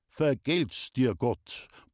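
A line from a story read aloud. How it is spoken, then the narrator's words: Grumbled. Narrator (German): brummte Lindl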